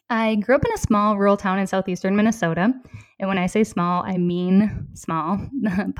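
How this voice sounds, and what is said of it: Minnesota accent. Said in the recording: “my Minnesota accent will come through in this podcast. I don't think I've quite lost it yet.”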